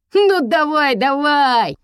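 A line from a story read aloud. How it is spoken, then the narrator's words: Gleeful grinning. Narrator (Russian): Радостно оскалился Есей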